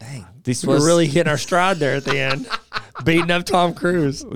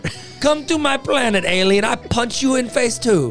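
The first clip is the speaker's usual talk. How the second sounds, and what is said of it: Put-on foreign accent. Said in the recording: “improv with accents”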